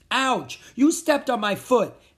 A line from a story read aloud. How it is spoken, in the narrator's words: A monster behind him shouted